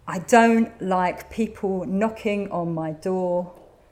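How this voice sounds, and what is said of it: Angry voice through gritted teeth. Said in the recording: “through gritted teeth and really kind of like vibrating with anger”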